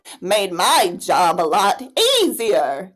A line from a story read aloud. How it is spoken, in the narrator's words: chuckled Josephine